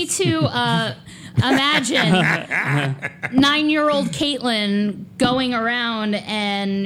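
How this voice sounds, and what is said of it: Usual voice. Nothing is said of it.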